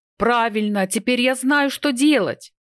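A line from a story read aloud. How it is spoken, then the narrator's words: Joyful shout. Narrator (Russian): Не помня себя от радости, я крикнул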